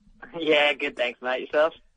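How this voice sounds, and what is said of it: Australian accent. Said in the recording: “God, I hope this guy has an accent. ... Yeah, all right, an Australian accent.”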